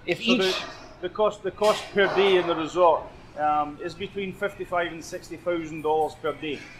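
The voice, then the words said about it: Scottish accent. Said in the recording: “That was a Scottish accent.”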